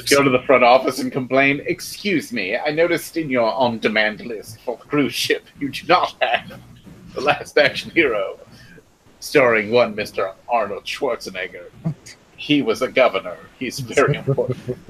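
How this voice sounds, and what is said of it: Put-on fancy accent. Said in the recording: “why you're putting an accent on to talk to these people? ... my fancy accent.”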